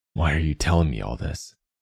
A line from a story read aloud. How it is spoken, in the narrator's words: Wolf said, fear a wet rasp in his throat